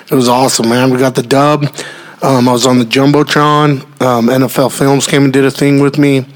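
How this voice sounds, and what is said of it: Worn, weakened voice. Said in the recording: “my voice might sound a little bit less”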